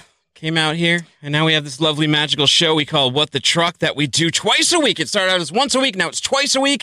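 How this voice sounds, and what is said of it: Usual voice. Nothing is said of it.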